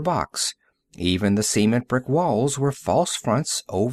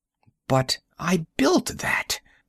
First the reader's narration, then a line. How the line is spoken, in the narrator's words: Burkhart exclaimed